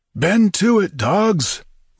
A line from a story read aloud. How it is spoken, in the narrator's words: roared Tito with a passionate gesture